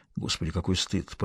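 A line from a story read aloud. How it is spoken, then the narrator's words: Mutter. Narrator (Russian): пробормотал он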